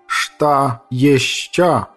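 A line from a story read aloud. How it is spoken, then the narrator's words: Slow, clearly enunciated question. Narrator (Russian): спросил он медленно и четко выговоря каждое слово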